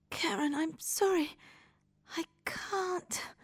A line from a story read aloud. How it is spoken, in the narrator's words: whispers